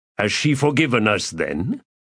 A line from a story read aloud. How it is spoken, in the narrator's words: Her laugh was bitter